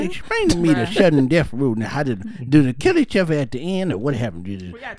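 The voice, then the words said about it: Old grandpa character voice. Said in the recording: “My grandma does not sound like this. ... I'm your grandpappy. ... impersonation”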